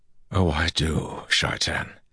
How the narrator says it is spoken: Rand said softly

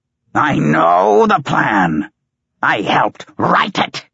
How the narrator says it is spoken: Howler screeched

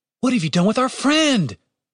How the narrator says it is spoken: Julian shouted

